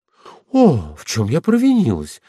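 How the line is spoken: Exclaimed. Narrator (Russian): воскликнула Ганя

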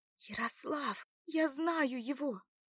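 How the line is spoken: Stunned loud whisper. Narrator (Russian): пораженно воскликнула Лада громким шепотом

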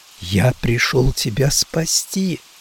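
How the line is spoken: Whisper. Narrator (Russian): прошептал я

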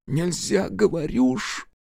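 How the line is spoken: Helpless sob. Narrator (Russian): Бессильно всхлипнул председатель

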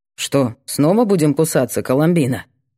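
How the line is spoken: Calm question. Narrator (Russian): Спокойно интересуется бампер

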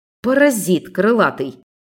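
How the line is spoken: Exasperated exhale. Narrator (Russian): В сердцах выдохнула я

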